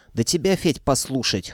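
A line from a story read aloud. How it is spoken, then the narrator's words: Snorting. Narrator (Russian): хмыкнула Варя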